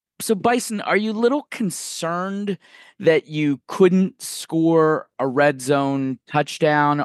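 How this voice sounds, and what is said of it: Imitates another person's voice. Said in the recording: “my best impression of one Christopher Tinace”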